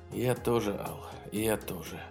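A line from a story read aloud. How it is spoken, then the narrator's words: Sighed. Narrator (Russian): вздохнул Тейсман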